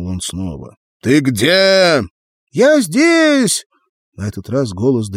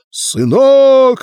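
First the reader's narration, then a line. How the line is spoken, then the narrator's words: Father's desperate shout. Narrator (Russian): отчаянно прокричал отец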